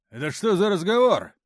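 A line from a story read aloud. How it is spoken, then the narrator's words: Barked. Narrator (Russian): рявкнул майор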